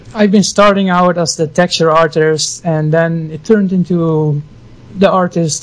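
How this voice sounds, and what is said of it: Dutch accent. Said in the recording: “your lovely accent ... I'm Dutch, a Frisian”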